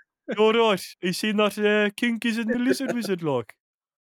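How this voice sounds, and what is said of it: Usual voice. Nothing is said of it.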